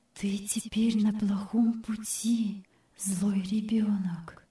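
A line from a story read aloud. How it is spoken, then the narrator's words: Quiet inner voice. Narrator (Russian): внутренний голос тихонько сказал ей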